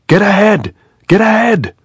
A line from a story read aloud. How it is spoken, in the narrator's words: the man shouted